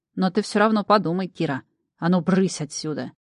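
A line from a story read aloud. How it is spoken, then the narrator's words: Growling. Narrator (Russian): зарычал Ред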